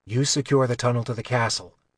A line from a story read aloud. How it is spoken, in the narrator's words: Kylar whispered